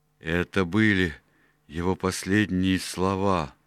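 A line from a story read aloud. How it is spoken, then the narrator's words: Groaning. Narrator (Russian): простонал Морган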